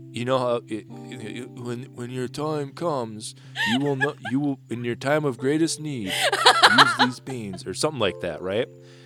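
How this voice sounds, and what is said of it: Impression of Atticus. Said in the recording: “a really good Atticus impression”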